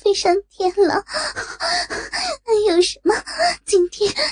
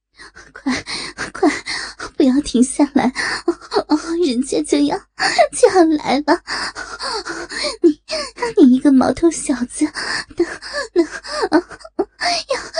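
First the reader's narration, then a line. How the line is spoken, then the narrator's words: Dazed, frustrated pleading. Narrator (Chinese): 圣女，又是畅快，又是感到没能发泄出来的苦闷，意识模糊的哀求着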